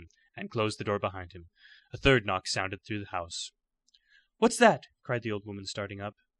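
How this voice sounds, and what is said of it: Usual voice. Nothing is said of it.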